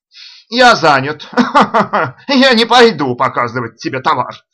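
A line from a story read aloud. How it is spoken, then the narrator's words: Drunken laughter. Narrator (Russian): рассмеялся начальник работ пьяным смехом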